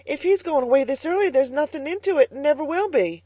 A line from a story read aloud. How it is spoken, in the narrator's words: gasped Carlotta